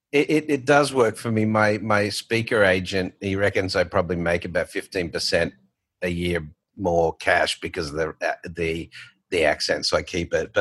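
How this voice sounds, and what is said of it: Australian accent. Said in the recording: “here still has his Australian accent... you still have that accent”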